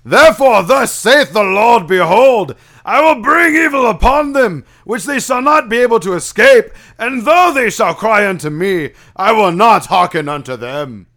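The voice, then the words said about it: Old Testament preacher character voice. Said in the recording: “your best Reverend Lovejoy impression. Old Testament Reverend Lovejoy ... it sounded more like Leonidas”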